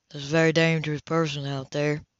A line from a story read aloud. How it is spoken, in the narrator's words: John said quietly